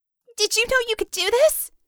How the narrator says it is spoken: gasped

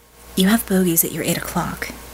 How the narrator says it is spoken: she said softly

